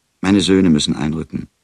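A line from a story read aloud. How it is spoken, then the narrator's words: Plain. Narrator (German): sagte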